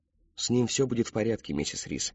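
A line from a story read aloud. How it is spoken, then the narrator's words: Gentle reassurance. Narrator (Russian): мягко заверила сестра Тэмми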